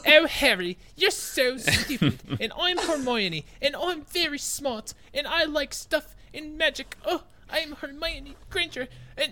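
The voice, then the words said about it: Annoying, bad fake British accent. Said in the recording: “my Hermione voice would be something that just like perpetually annoying. It'd be like a shitty British accent”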